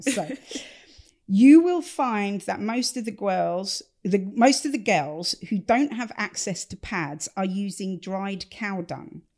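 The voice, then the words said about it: English Stevenage accent. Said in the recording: “this is being done in a Stevenage accent. Much as I love my hometown, this should not be in a Stevenage accent”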